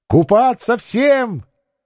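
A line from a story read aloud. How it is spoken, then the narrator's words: Shouted. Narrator (Russian): крикнула Наталья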